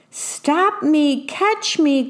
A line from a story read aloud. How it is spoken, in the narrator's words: cried the worm